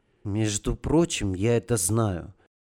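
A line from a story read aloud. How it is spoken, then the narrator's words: Quiet girl's reply. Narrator (Russian): тихо ответила девчонка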